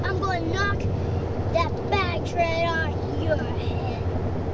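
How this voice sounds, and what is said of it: Child's tough robber voice. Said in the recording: “I know how to talk like a robber.”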